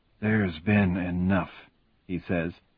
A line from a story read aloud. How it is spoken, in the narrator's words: his voice a murmur that can barely be heard over the rain